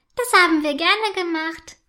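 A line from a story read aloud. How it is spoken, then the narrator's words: Calling back. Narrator (German): ruft Rotanella zurück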